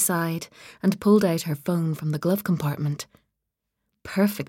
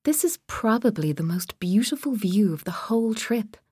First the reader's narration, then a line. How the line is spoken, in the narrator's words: she said